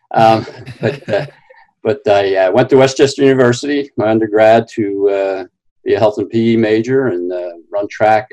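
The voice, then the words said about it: Philadelphia South Jersey accent. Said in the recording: “hence the Philadelphia, South Jersey accent. I've been compared to Rocky's voice sometime.”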